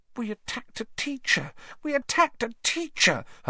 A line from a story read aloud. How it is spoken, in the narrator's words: Hermione whimpered, staring at the lifeless Snape with frightened eyes